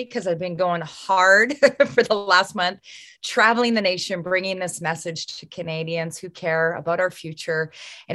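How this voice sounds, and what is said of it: Slightly raspy voice. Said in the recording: “My voice is a bit raspy”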